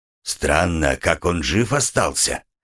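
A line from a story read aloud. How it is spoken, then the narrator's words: Gloomy. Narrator (Russian): мрачно сказал кот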